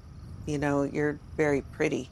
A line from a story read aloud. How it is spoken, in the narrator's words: he said in a low voice